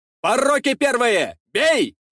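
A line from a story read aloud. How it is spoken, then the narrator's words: Shouting. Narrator (Russian): кричал Ефрем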